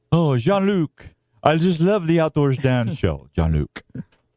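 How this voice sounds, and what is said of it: Put-on French accent. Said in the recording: “That's good accent.”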